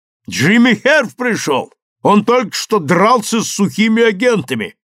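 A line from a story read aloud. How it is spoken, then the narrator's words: Shouting. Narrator (Russian): крикнул Рой своей жене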